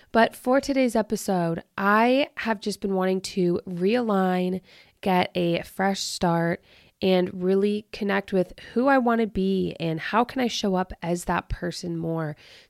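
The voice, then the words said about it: Voice lower than usual, slightly husky. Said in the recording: “if my voice is a little bit lower, that's because I had an allergy attack right before I left Detroit that I'm still recovering from. And it's also 5:46 in the morning. So my voice is a little bit lower than it typically is.”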